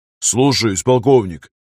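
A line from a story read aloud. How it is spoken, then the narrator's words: Barking. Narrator (Russian): рявкнул он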